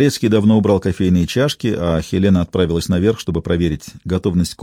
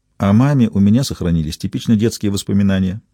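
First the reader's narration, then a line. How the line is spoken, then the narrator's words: Plain. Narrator (Russian): сказала она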